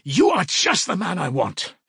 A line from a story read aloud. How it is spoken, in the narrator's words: Raskolnikov cried